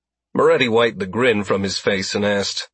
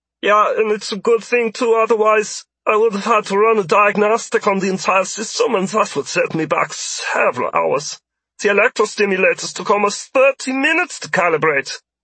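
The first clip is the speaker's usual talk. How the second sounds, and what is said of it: Thick German accent character voice. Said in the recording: “in a thick German accent.”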